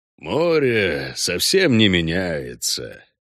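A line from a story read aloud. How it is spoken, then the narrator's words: Thoughtful. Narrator (Russian): сообщил Хальгдаф задумчиво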